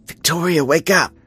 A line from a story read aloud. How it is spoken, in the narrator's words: Audrey whispered urgently through the glass